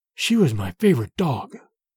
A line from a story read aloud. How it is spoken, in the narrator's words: Petar whispered